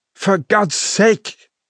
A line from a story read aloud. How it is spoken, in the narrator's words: he pleaded